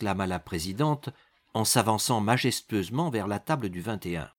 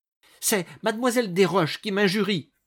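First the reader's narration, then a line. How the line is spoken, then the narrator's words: Bursting into sobs. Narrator (French): répondit Césarine en éclatant en sanglots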